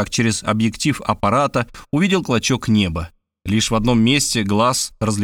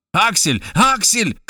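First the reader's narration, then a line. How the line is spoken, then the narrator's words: Shouting. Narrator (Russian): кричал он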